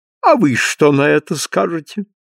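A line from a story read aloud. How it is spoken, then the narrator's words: Mocking. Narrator (Russian): обратился насмешливо Олдермен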